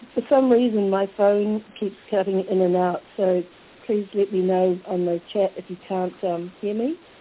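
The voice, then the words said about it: Croaky, hoarse voice. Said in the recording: “excuse my voice. ... I'm a bit croaky tonight.”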